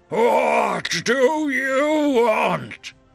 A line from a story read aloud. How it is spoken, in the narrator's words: A deep voice bordering on a growl exited the metal helmet of the Sauron ripoff